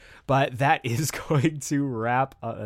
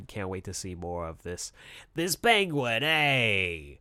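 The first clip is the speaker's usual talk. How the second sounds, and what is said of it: Badly done put-on accent. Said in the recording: “That's a terrible accent”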